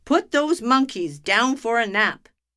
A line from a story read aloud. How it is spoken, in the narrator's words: the doctor snapped